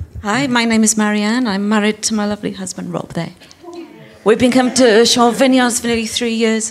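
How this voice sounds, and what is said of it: Slightly foreign Welsh accent. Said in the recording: “you've got a slightly foreign accent ... We're Welsh”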